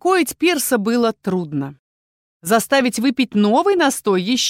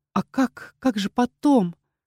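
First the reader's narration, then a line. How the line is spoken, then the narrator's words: Quiet question. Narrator (Russian): спросила она тихо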